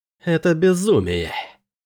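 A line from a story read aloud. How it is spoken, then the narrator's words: Hiss. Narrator (Russian): прошипел Дроан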